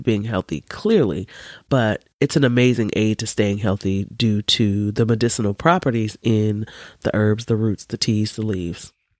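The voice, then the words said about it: Nasal, congested voice. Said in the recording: “I sound a little nasally ... I'm sick ... my snotty nose ... my nasally sound”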